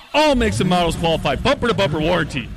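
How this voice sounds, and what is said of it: Big booming announcer radio voice. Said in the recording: “a big radio voice. You need it when talking about a big deal”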